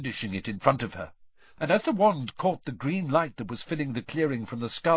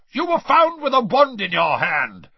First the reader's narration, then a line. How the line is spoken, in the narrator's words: barked Mr